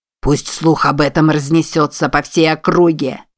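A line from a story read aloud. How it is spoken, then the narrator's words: Roaring through dented tube. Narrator (Russian): проревел главарь через помятую трубку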